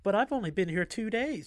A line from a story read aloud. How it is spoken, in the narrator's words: she said, followed by a cutesy little giggle